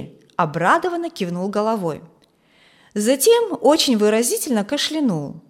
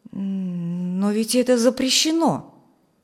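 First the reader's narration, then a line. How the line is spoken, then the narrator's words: Frightened. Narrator (Russian): сказал Фрэнк испуганно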